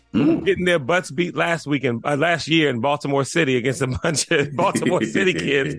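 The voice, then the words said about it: Strained, weird-sounding voice from yelling. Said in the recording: “my voice sounds weird, it's because I've been yelling at 11-year-olds all weekend”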